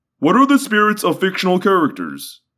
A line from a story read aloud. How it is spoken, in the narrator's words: Guide whined in what I took to be a humorous way